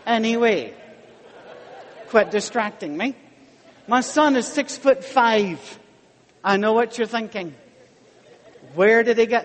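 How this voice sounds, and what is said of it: Michigan accent. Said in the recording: “I love your accent ... I've never heard anybody from Michigan before”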